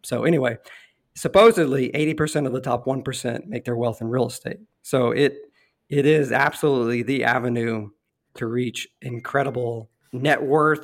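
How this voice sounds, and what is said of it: Hoarse, failing voice. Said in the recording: “excuse my voice, for those listening ... I'm losing my voice”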